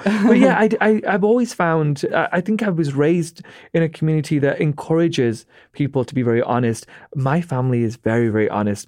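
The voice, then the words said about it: British English accent. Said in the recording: “He's British.”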